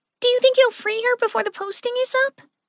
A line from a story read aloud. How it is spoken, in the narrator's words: Clover blurted out